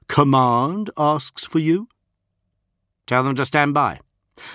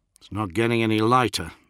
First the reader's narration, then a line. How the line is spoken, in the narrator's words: muttered Sonica